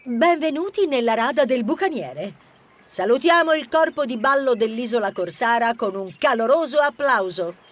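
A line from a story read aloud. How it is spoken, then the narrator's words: Persuasive affected squeak. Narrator (Italian): cambiò tono e con un tono suadente e impostato squittì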